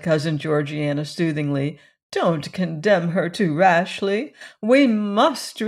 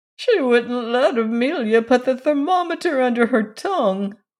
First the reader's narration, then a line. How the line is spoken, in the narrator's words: whimpered Cousin Stickles